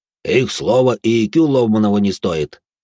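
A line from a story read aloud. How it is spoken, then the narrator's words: Deep bass voice. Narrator (Russian): пробасил де Журиньи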